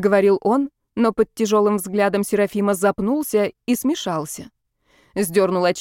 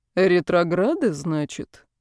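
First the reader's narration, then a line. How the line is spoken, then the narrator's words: Thoughtful drawl. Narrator (Russian): Задумчиво протянул Серафим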